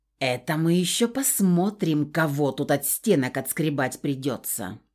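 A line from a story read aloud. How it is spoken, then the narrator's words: Hissing. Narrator (Russian): Прошипел Нак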